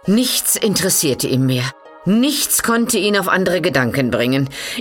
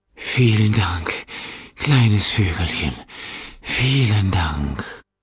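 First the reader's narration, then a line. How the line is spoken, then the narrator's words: Weak emperor murmuring. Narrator (German): murmelte der schwache Kaiser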